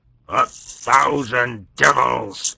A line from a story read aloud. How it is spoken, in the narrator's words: roared